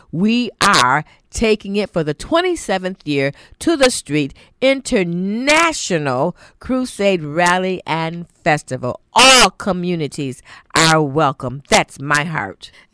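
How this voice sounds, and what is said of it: Polished announcer-style radio voice. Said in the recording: “her best radio voice, which was very, very good”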